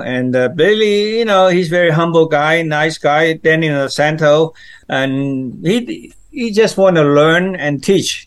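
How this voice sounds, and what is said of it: Speaks English with an accent. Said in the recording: “you can hear that I have accent”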